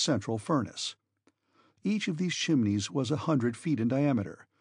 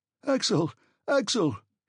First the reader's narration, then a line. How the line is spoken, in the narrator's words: he cried